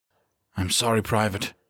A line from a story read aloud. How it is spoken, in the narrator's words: he murmured